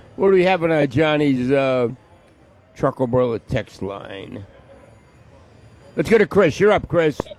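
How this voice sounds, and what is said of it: Noticeable regional accent. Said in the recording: “Listening to you say Bubba in your accent is hilarious.”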